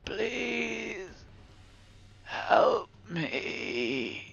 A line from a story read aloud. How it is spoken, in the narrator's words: wheezed